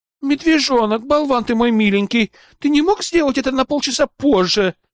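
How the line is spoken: Melodious female voice, cursing. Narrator (Russian): мелодично, но очень грязно выругалось и сказало женским голосом

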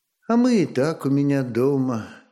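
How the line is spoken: Tired smiling young woman. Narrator (Russian): устало улыбнулась девица

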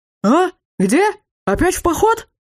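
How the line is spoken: Shouted across courtyard. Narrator (Russian): прокричал на весь академический двор наш знаменитый сосед, Лархар Зарзилази

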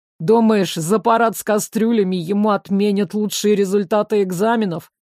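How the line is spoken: Doubtful scoff. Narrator (Russian): недоверчиво хмыкнули рядом

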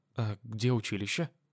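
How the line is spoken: Slightly confused young woman. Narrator (Russian): Немного растерянно спросила девушка

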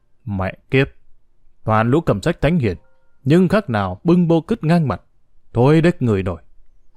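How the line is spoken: Harsh, clipped. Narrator (Vietnamese): gằn giọng

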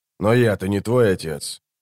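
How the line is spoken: Grumbling. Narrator (Russian): проворчал человек

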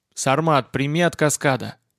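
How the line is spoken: Calm over radio. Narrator (Russian): спокойно произнес Гумеров на втором канале

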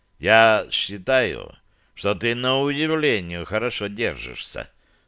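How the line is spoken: Calm. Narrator (Russian): спокойно произнес варвар

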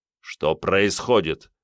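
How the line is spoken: Angry question. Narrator (Russian): зло спросил генерал

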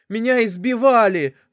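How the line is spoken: Pleading, cut off, woman. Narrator (Russian): взмолилась снайперша, но вновь осеклась

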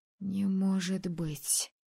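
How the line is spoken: Breathed in horror. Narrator (Russian): Холодея от ужаса, выдохнула Мартина

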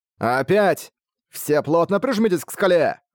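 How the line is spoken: Shouting. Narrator (Russian): закричал Шамбала

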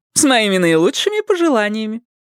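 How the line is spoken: Joyful woman's voice. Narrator (Russian): женщина и радостно сказала

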